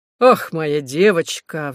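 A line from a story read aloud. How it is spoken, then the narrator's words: Sighing reply. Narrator (Russian): вздохнул в ответ комиссар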